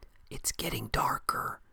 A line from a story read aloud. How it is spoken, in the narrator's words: she whispered